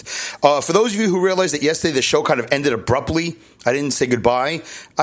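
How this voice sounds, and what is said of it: Brooklyn accent. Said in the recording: “I don't have to do a Brooklyn accent. This is the Brooklyn accent.”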